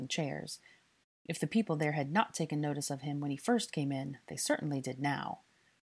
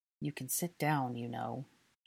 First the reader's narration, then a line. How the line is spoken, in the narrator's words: Draco muttered quietly without moving his lips